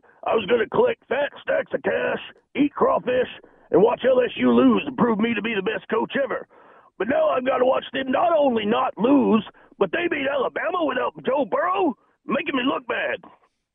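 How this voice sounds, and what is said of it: Very low-pitched imitation of another person. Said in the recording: “it was actually a good impression. It was a good Ed O. ... as impressions go, that was pretty good ... That's not the easiest voice. That's to get down that low.”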